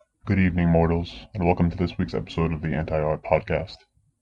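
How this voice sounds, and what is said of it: Unusually deep voice. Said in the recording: “my voice is so deep”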